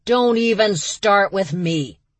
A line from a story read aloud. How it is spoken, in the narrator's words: she bellowed